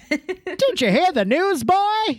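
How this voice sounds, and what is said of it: Put-on old-timey accent. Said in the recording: “Did you have a really strong accent? ... Like an old-timey accent? ... Not a Queens accent, an old-timey accent.”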